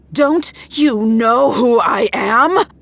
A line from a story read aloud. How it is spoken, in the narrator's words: She roared